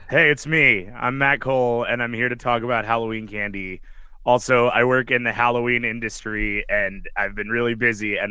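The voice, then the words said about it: Very hoarse, gravelly voice. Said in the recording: “my voice is shot. So if I sound like I'm gargling gravel”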